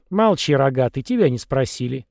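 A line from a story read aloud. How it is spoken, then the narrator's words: Quarrelsome old woman's snort. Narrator (Russian): фыркнула старушка, начав ссору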